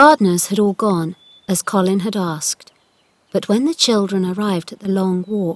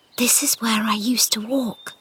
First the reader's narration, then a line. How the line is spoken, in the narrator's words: said Mary quietly